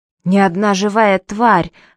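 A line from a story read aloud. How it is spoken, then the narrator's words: Agitated reminder. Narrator (Russian): взволнованно напомнил Гейр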